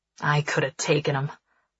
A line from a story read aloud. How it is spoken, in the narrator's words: Nix grumbles